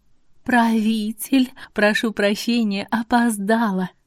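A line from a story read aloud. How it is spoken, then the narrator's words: Honeyed sweet voice. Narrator (Russian): медовым голосом произнесла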